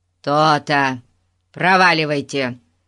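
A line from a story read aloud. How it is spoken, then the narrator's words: Triumphant commanding bark. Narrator (Russian): командирским тоном гаркнул Гун, решив, что на этот раз ему удалось взять верх над этой вездесущей ребятней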